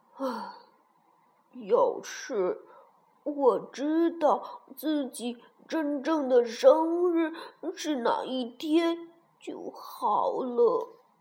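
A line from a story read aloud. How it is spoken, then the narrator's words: Sad sigh. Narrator (Chinese): 他好难过，又叹了口气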